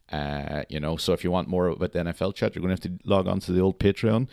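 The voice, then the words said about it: Slightly ill, flat monotone voice. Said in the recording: “You can hear that I'm slightly under the weather with my monotone voice”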